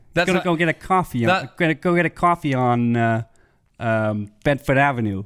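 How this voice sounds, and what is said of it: Put-on Brooklyn accent. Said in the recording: “Do your Brooklyn accent ... Yeah, that's quite good.”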